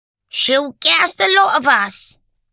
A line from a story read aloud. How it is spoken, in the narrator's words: a voice piped up from the back of the room